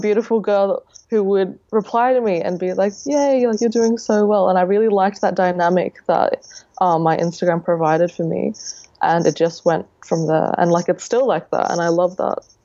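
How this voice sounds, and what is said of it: Australian accent. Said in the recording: “You're from Australia, which I love your accent”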